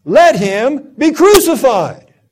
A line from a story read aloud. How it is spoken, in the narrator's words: they cried out all the more, saying